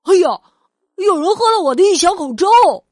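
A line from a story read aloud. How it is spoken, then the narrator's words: Crying out. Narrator (Chinese): 熊爸爸叫起来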